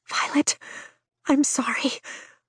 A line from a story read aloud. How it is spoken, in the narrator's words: Brennan whispers